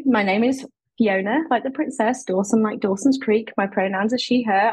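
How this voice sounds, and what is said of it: British accent. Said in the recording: “As you can tell from my accent ... the accent is British”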